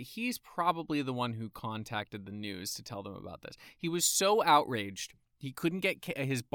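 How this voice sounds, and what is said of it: Usual voice. Nothing is said of it.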